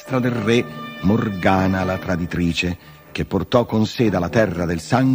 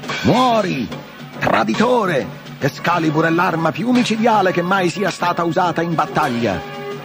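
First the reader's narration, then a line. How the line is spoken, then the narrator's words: Loud shout over battle. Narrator (Italian): Artù, superando il fragore delle armi, gridò forte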